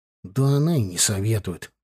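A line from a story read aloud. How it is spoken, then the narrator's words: Grumbling. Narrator (Russian): проворчал Славка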